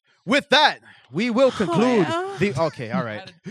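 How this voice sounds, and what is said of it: Announcer voice. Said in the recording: “put on my announcer voice.”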